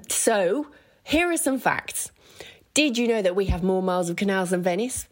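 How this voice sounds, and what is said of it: Birmingham accent. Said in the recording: “we've got a funny accent, but, you know, you'll come to love it. You'll come to call everyone Bab”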